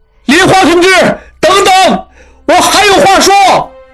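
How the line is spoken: Shouting. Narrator (Chinese): 大喊着

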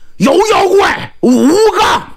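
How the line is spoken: Loud booming shout. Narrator (Chinese): 张信大嗓门一喊

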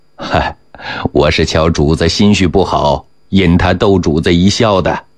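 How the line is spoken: Laughing. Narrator (Chinese): 纪晓岚笑着说

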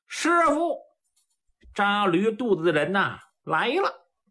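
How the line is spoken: Loud shout. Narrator (Chinese): 杜林大声喊道

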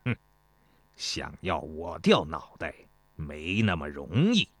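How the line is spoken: Cold. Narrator (Chinese): 公孙越冷冷地说

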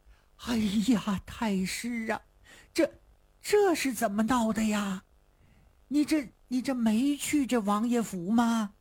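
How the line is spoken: Long sigh. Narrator (Chinese): 严嵩长叹一声

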